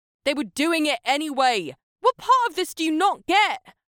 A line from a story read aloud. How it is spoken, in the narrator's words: Her shout rattled the glasses on the counter